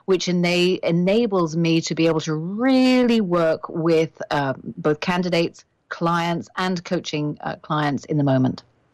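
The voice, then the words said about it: British accent. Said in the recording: “your accent is so lovely ... you don't sound Canadian ... I am British, as you identified.”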